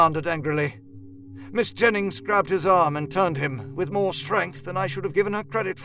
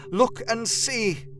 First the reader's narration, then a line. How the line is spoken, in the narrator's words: cried